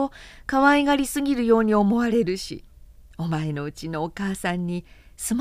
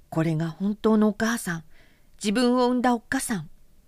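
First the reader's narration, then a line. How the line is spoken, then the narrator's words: Muttered inwardly. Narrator (Japanese): と心の底でいつもつぶやいた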